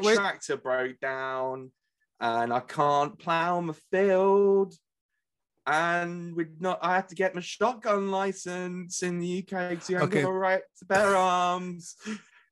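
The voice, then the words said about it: Put-on American country accent. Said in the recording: “the natural home of the country music is the American accent ... it would sound weird if I did it in just my normal accent”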